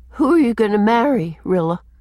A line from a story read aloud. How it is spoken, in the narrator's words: she asked feebly